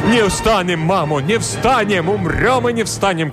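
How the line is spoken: Crowd of men shouting. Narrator (Russian): кричали запорожцы

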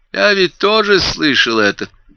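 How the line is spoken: Pleasant voice. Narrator (Russian): произнес Крейг все тем же приятным голосом

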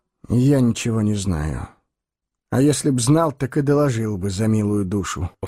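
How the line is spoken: Weary explanation. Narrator (Russian): устало пояснил Соль

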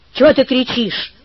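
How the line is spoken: Angry. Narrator (Russian): сказал он сердито

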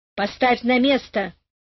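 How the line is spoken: Angry. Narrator (Russian): сказал сердито Карик

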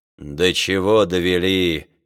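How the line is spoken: Grumbling aloud. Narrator (Russian): ворчал вслух Жамен

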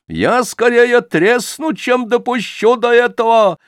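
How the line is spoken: Shouting. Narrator (Russian): кричала сожительница Солопия

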